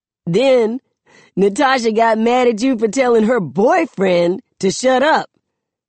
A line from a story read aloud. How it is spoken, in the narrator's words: Khalil says, laughing